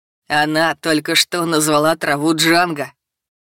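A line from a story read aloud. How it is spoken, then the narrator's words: Laughing loudly. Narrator (Russian): снова захохотал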